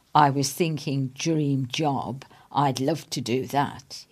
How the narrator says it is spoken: he says

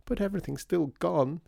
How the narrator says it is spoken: said Peony, sobbing

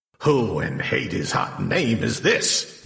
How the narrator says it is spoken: he growled

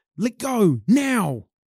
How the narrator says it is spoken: They grew suddenly large, and yelled

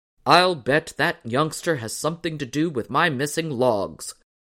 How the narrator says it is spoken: growled his father

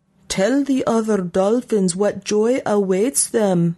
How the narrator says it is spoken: the little Maj shouted after Peepo as she drifted past the open jaws into the light

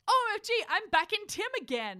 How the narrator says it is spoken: I screamed loudly

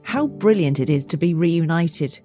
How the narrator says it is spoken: exclaimed

